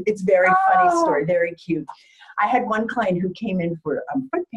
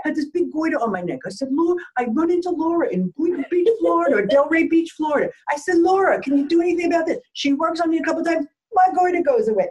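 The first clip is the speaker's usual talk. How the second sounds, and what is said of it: Imitated New York accent. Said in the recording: “I get to imitate a New York accent.”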